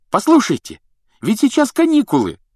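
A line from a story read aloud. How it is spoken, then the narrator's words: Exclamation. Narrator (Russian): воскликнул Рон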